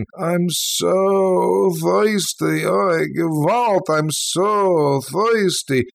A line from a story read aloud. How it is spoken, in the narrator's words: whining and crying